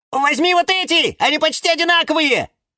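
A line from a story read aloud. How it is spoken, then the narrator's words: Shouting. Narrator (Russian): Кричали фикусы Вениамин и Валентин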